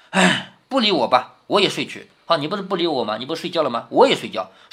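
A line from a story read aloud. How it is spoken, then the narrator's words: Bored sigh. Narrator (Chinese): 宝玉实在无趣，便叹道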